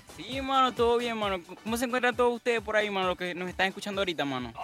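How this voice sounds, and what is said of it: Venezuelan Spanish accent. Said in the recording (Spanish): “¿Cómo ese acento venezolano que tú traes?”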